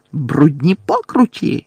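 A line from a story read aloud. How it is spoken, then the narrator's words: Shrieking. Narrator (Ukrainian): заверещала Амбридж, затуляючи голову руками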